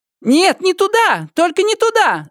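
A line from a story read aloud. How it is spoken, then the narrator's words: Shouted. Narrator (Russian): закричала она грузчиком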